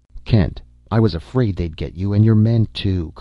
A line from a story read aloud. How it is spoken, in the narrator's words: Crane exclaimed